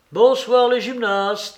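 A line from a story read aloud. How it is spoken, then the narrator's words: Exclaimed. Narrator (French): s'écria Freinet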